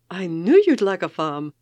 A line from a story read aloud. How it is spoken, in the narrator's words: she said triumphantly